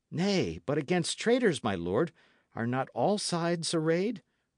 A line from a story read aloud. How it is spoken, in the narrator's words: cried Dick